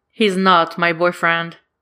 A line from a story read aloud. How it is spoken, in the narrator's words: says as firmly as he can